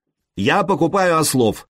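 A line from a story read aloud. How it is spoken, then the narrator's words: Shout repeated in two languages. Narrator (Russian): крикнул он по-словенски и повторил тоже по-ромейски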